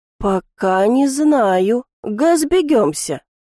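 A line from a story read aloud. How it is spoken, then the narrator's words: Hesitant, unsure drawl. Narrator (Russian): Уже гораздо менее уверенно протянул господин Оркан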